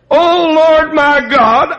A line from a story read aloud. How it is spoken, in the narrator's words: I cried unto thee